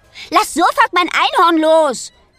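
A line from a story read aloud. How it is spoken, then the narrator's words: Called out. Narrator (German): ruft Rosa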